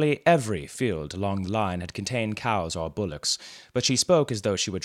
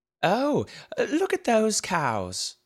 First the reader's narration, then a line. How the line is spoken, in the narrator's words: exclaimed the aunt